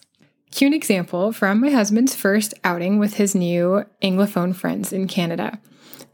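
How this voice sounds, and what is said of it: American English accent. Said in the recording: “I'm going to stick to the American-centric analogies for now, just because that's the accent that I have”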